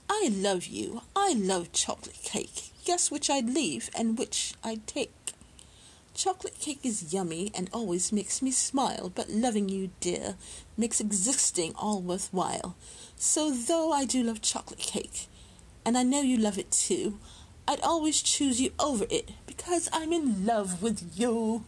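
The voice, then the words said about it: Put-on British accent. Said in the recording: “I just felt like a British accent at that time. How was it? I don't know. I try.”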